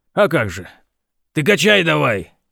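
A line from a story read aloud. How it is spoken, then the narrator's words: Barked, mechanic. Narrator (Russian): рявкнул механик помощнику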